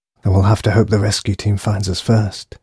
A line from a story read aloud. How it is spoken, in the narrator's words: whispered